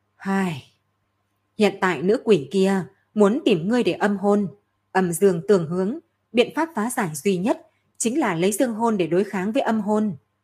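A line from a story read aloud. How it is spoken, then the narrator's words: Sighing. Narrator (Vietnamese): Nhị Miêu mới thở dài một hơi nói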